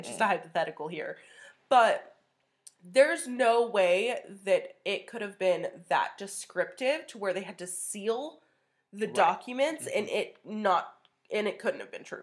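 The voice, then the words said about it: Sniffly, congested, deep-sounding voice. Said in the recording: “me sniffling the whole time... I probably sound like a dude.”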